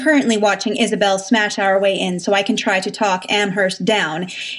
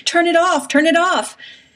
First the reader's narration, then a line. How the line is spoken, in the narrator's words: says that Amherst is huddled under the craft project table, screaming